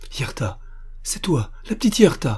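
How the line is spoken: Exclaimed. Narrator (French): s'écria Armand Louis

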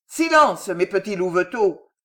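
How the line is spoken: Answering a shouting crowd. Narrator (French): ajouta-t-il en répondant aux vociférations du peuple

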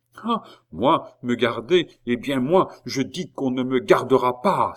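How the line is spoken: Young man's furious cry. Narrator (French): s'écria le jeune homme, livide de colère

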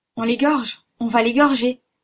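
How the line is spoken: Exclaiming. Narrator (French): s'écria Kennedy

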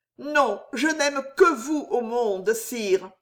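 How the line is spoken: Deep, sincere, sob-broken. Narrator (French): répondit Jeanne d'une voix pénétrante, brisée de sanglots, et si profonde, si vraie

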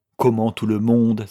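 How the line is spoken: Crying out. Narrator (French): s'écria M

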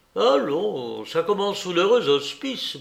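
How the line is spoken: Murmuring. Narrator (French): murmurait-il

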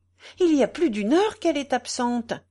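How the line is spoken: Exclaimed anxiously. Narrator (French): s'écria madame Michaud

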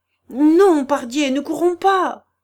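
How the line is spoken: Shouted through clenched teeth. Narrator (French): cria Mouquet en serrant les dents

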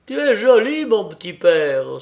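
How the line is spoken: Exclaimed. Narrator (French): s'écria Kapitoline Markovna

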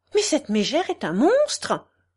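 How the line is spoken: Affected fluting voice. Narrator (French): s'écria la présidente en faisant sa petite voix flûtée

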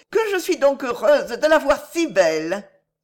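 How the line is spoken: Exclaimed. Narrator (French): s'écria-t-elle

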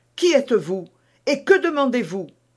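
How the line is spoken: Exclaiming. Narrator (French): s'écria-t-elle

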